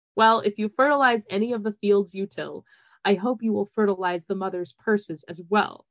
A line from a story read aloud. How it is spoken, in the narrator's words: Ambrose said